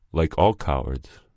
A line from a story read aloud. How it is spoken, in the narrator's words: replied Marcelo